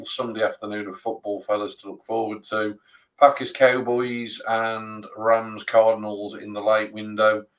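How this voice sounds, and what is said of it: Hoarse, failing voice. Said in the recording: “I'm losing my voice ... I've really lost my voice.”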